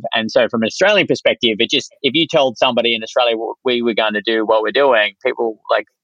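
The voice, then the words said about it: Australian accent. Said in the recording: “You're crazy with a cool accent over there”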